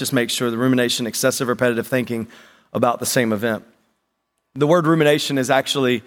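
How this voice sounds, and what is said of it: Usual voice. Nothing is said of it.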